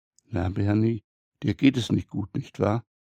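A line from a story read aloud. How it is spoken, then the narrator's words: Waitress whispering. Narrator (German): Clara, die Bedienung, flüstert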